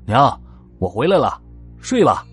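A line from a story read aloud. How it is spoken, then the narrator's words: Calling out. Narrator (Chinese): 刘老三喊了一声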